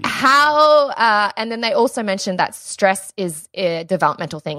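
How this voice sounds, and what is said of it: Australian accent. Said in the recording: “I'm saying in an Australian accent”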